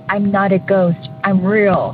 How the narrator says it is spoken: like in a really scary voice

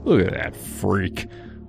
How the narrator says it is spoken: would mutter, just loud enough for me to hear

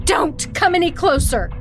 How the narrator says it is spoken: screamed

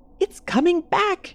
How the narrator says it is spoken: she'd shriek

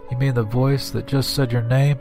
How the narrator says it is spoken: His voice was shaky

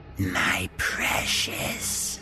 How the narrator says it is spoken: She'd hissed

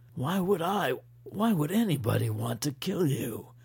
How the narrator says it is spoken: Kaufman groaned

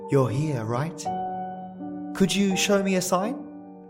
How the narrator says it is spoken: Even as you shuffled around nervously and called

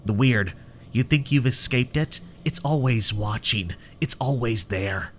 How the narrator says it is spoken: Sam muttered

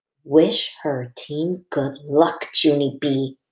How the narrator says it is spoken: she whispered

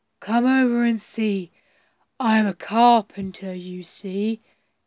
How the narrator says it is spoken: said Milo in his deep, gruff voice

